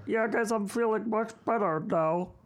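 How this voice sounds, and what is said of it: Throaty, muffled, Muppet-like impression. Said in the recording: “my Andrew Luck impression ... A little Muppety ... he's throaty ... A little throaty ... It kind of muffles it”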